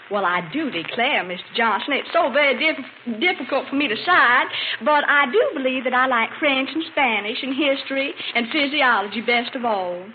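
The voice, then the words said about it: Exaggerated Southern Georgia accent. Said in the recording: “slip down in that best Georgia accent ... You do pretty good”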